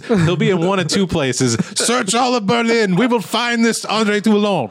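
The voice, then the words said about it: German villain voice with French accent. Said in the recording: “That was the Frenchest Nazi I've ever heard ... you just had a nice French accent there”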